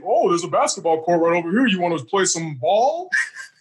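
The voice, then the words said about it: Imitates another person's voice, proper-sounding. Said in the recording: “That was the Miz impression? ... That's how he sounds to me. ... He said it like that, real proper”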